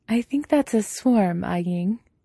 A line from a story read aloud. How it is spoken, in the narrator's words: Jiang Yanli says, her voice soft but amused